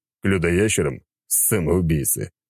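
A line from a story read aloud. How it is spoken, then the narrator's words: Scoffing snort. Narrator (Russian): хмыкнул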